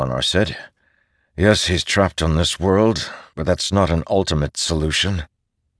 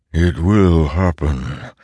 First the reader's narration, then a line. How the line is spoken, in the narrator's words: the Stormfather agreed, his rumbling voice becoming more familiar and stormlike